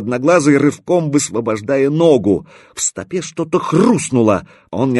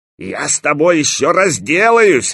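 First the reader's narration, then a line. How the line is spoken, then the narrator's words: Yelled. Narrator (Russian): заорал одноглазый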